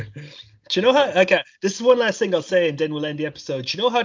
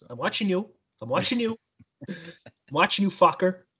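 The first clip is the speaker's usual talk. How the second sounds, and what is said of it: Imitates another person's voice, Irish accent. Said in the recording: “I'm terrible at Robert De Niro impression ... with the Irish accent I've heard do a De Niro impression though, so I thought it was pretty good”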